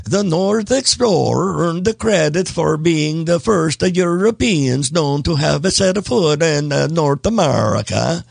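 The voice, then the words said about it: Attempted Norse accent. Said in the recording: “Hopefully that was somewhat of a Norse accent.”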